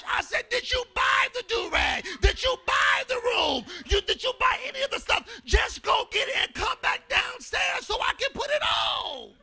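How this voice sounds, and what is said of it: Yelling. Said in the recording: “But why you yelling, Daddy?”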